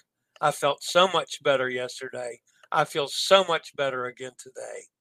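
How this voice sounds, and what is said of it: Hoarse voice. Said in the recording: “you can still hear the hoarseness in my voice.”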